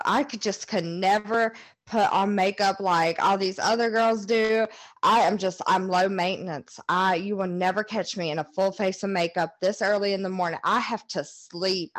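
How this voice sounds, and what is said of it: Mocking pick-me girl voice. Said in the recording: “it's a pick me girl ... I'm gonna do my impression real fast.”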